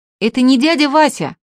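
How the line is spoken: Child shouting from gallery. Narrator (Russian): кричал Артемка на галерке

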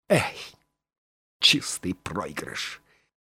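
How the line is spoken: Annoyed boy grumbling. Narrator (Russian): проворчал раздосадованный мальчик

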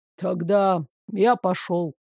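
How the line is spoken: Grumbled mutter. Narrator (Russian): буркнул он

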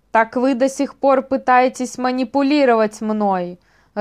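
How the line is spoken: Growled reply. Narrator (Russian): рыкнул в ответ Вайл

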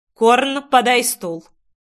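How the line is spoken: Cold command. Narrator (Russian): Холодным тоном приказал Ривенналс

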